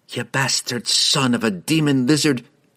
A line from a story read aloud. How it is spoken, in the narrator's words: she spat